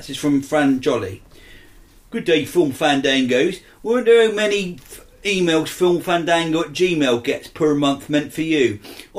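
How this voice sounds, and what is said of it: Put-on farmer accent. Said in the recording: “I'm going to do a farmer accent”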